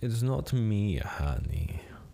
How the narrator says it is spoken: Celeste purred

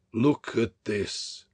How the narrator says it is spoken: he said composedly and solemnly

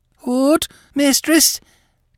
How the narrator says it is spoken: cried the girl

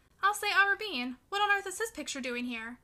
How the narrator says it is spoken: exclaimed

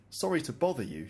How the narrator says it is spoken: she said

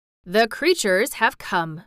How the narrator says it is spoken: said Colin gravely

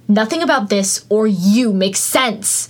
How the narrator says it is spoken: he snapped

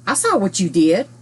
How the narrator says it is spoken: Danny confused the guard by replying to him in an accusing tone

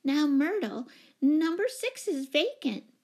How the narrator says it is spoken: put in Miss Giddings anxiously

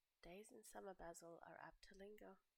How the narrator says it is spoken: murmured Lord Henry

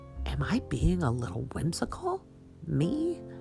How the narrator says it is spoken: Giggling to herself

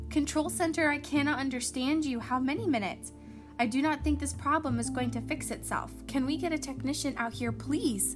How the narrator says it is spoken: exclaimed

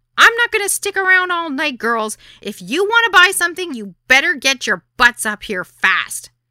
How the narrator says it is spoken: blood pressure pounding in my temple, shouted

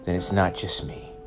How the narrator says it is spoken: Jamal chuckled

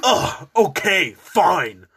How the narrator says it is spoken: Bretman yelled once again

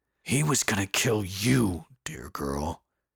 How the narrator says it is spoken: he said in a gruff voice

